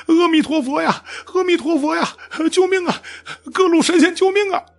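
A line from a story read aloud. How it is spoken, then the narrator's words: Desperate wailing. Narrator (Chinese): 他也急来抱佛脚，哭喊道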